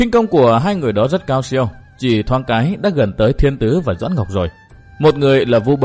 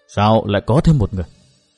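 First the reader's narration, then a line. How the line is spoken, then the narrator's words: Puzzled muttering. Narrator (Vietnamese): thiên tử cao mày lẩm bẩm nói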